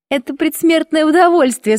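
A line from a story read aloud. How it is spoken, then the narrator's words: Laughing mischievous girls. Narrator (Russian): смеялись шалуньи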